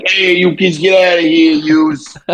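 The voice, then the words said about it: Stereotypical movie mobster-style accent. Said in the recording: “In that typical like fucking like movie accent ... it's like Tony Soprano or something”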